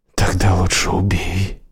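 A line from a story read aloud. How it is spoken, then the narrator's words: Speaking through gritted teeth. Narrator (Russian): процедил Холланд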